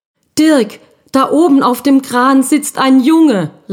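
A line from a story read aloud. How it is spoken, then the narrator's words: Very excited call. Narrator (German): rief Frau Blum ganz aufgeregt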